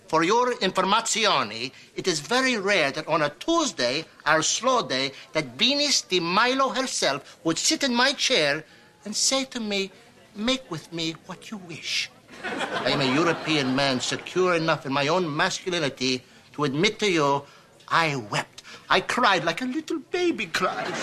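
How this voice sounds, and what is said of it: Phony put-on foreign accent. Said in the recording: “let's just drop this phony accent.”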